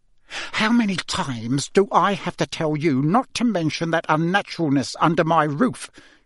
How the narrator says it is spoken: he hissed, his face now a rich plum colour

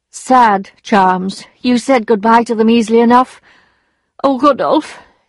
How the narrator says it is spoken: sighed

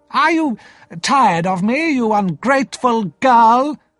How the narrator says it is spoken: Miss Havisham cried

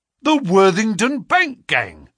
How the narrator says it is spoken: cried the inspector

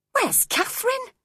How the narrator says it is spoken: I cried sharply

